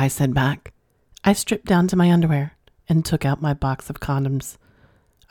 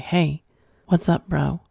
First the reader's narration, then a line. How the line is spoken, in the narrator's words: softly and nervously say